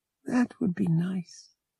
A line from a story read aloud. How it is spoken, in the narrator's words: she said dreamily